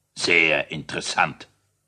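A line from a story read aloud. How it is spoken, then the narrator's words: Bored, yawning grumble. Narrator (German): brummte der König und gähnte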